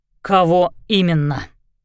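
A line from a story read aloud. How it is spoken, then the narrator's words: Curt clarifying question. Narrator (Russian): отрывисто уточнил Лещинский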